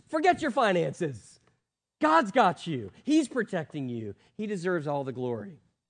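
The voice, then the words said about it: Yelling, fired-up preaching. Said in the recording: “Getting a little fired up here. ... Why are you yelling? ... I normally don't yell. I'm just getting fired up.”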